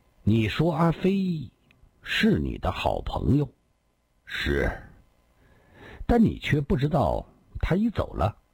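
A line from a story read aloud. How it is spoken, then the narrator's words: Calm, slow speech. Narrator (Chinese): 郭松阳静静地，缓缓地说道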